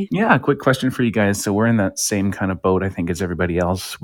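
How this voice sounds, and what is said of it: Smooth radio voice. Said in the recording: “you, my friend, have a radio voice. ... You do. Very smooth. ... I think it's my wake up in the morning voice. ... It's smoother than my coffee”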